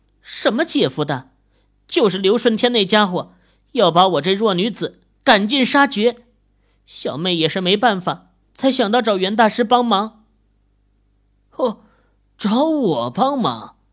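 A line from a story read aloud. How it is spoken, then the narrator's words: Chuckling. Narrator (Chinese): 袁鹤嘿嘿一笑，说道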